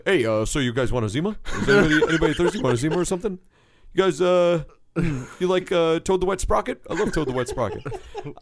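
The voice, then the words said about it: Poor imitation of another person's voice. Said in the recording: “my best Joel impersonation ... That's bad. It's a horrible impression.”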